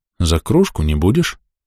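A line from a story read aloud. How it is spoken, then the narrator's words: Calm. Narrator (Russian): спокойно сказал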